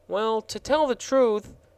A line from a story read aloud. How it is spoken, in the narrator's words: said the gardener in a perplexed tone of voice